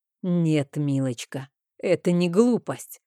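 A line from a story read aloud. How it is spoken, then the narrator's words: Angry reply. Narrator (Russian): зло ответил он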